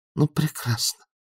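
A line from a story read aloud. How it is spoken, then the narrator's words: Muttered. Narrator (Russian): буркнул Бадун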